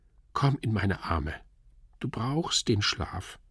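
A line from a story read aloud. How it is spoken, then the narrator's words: Whispered. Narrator (German): flüsterte sie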